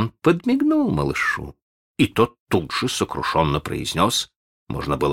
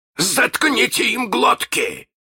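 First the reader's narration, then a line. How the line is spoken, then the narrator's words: Barked. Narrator (Russian): рявкнул Крюк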